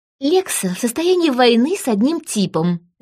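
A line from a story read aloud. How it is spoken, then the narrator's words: Declaring. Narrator (Russian): заявила Сильвия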